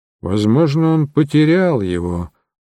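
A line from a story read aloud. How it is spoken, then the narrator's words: Muttering. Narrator (Russian): пробормотал мой компаньон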